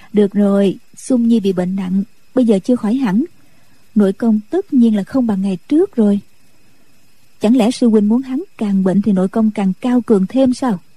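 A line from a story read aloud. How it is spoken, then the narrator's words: Smiling woman's speech. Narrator (Vietnamese): Nhạc Phu Nhân mỉm cười nói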